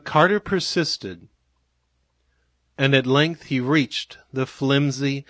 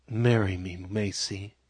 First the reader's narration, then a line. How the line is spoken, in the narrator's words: whispered softly